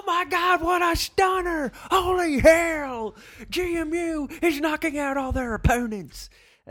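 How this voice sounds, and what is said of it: Bad wrestling announcer impression. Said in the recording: “That's a terrible impression. I don't even like wrestling”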